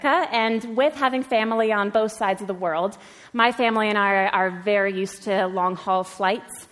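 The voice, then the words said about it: American accent, not Belfast. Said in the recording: “that's not a Belfast accent. And you'd be right. I'm from America.”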